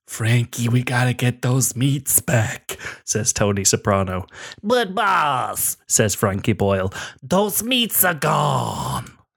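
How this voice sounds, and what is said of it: Imitates another person's voice. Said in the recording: “That's a good Frankie impression”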